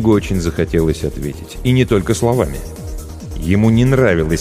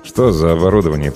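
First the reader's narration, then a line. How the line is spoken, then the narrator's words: Through gritted teeth. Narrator (Russian): процедил он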